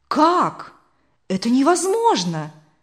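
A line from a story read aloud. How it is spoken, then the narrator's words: Surprised exclamation. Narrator (Russian): удивленно воскликнул Бартов-старший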